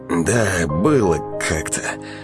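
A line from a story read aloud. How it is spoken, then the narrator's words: Snorting chuckle. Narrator (Russian): хмыкнул Александр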